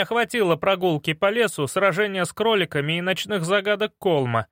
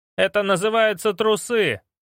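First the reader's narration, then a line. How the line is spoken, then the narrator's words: Barking. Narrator (Russian): рявкнул я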